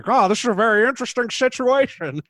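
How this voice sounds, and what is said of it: Imitates another person's voice. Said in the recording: “That's a great accent. ... It's the best voice”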